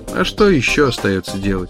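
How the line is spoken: Plain. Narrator (Russian): сказал он

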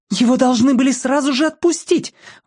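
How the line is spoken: Exclamation. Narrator (Russian): воскликнула Берри

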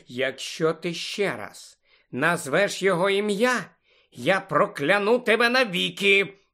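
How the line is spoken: Menacing hiss. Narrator (Ukrainian): Загрозливо прошипіла Тонкс

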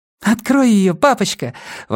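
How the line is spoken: Exclaimed. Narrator (Russian): воскликнула Илза

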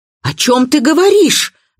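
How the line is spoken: Shout. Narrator (Russian): закричала Дина

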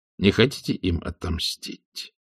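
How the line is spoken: Quiet question. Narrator (Russian): тихо спросил Макайр

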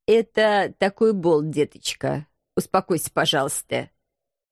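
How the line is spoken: Dry. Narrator (Russian): сухо отметил агент 013

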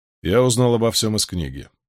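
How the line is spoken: Calm. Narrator (Russian): спокойно ответил Ранд

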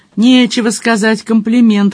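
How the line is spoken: Wry muttered snort. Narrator (Russian): хмыкнул про себя Джон Том

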